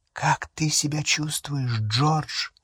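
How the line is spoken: Whisper. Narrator (Russian): прошептала миссис Уизли

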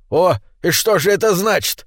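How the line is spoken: Threatening exclamation. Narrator (Russian): воскликнул гном, угрожающе

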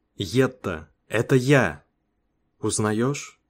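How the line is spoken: Whisper. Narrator (Russian): прошептал я

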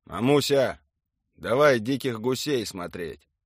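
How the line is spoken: Called out to another room. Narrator (Russian): крикнул он ей на кухню

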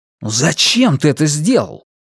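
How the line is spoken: Hurt exclamation. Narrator (Russian): почти обиженно воскликнул он

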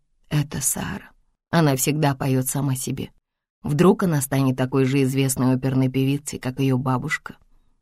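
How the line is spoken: Sleepy mumble. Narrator (Russian): пробормотал Джек, уже почти уснув

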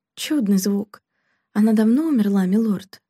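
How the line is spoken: Sighing, quiet reply. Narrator (Russian): Граф вздохнул и тихо ответил

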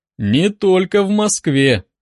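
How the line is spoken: Mocking. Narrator (Russian): насмешливо заметил Фрол

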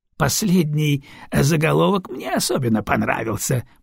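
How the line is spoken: Grumbling. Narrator (Russian): проворчал барон Сдучек

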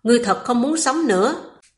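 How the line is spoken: Panting, angry. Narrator (Vietnamese): Âm Tế Thiên thở dốc, tức giận nói

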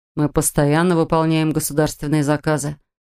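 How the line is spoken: Calm explanation. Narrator (Russian): спокойно пояснил он

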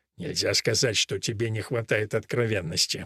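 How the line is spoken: Muttered. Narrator (Russian): бормочет отец Гарсия

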